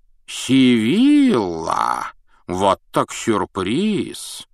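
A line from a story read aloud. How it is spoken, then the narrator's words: Exclamation. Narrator (Russian): воскликнул Дамблдор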